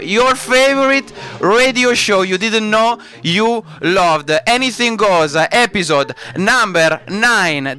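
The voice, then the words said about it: Strong Italian accent. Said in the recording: “why do I have to accentuate my Italian accent?”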